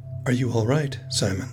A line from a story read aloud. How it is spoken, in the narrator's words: he asks